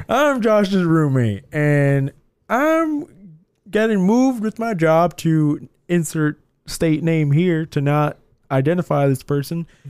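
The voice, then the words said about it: Imitates another person's voice, unconvincingly. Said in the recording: “doing a voice that's not at all like his ... It really wasn't like his voice.”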